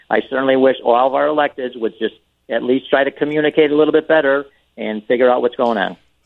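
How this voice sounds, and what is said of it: Strong Chicago accent. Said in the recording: “we appreciate your accent, Alderman ... when they have a Chicago accent contest, everybody says I can't get in because it would be an unfair contest.”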